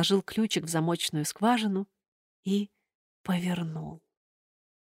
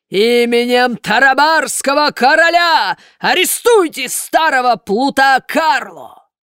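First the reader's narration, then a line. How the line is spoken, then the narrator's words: Roaring voice. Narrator (Russian): голос Карабаса-Барабаса проревел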